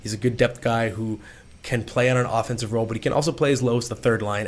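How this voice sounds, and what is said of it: Strained, not fully recovered voice. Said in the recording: “My voice is not all the way back”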